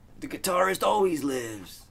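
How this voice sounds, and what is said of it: Good Danny Trejo impression. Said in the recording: “your Danny Trejo impression ... That was a good one.”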